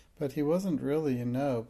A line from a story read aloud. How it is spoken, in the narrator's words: put in Janet hastily